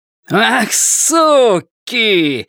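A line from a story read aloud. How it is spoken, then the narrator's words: Furious shout. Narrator (Russian): закричал мужчина с винтовкой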